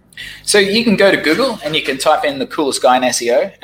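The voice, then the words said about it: Speaks with an unusual accent. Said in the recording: “my funny accents”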